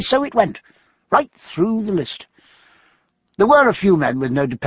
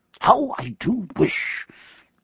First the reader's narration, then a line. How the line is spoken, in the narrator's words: he murmured to Jack in a moment's pause